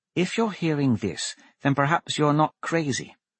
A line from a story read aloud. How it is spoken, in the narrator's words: Lyra murmur